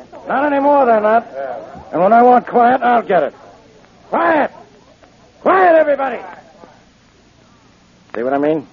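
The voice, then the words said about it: Loud shouting voice. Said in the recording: “lower your voice”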